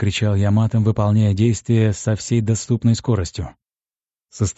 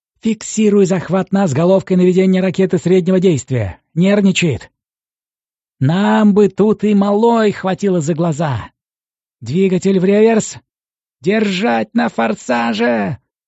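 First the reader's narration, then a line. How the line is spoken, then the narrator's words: Shouting. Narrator (Russian): закричал Искин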